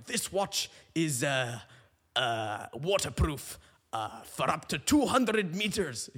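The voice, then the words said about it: Bad imitation of an Irish accent. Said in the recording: “I don't know what this accent is ... he's meant to be an Irishman ... He's Scottish, that's horrible.”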